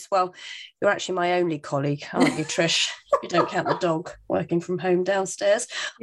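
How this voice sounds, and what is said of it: Congested, slightly rough voice. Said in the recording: “Oh, got a little bit of a cold, so excuse my voice.”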